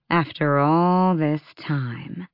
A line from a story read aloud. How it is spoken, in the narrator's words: Aelin purred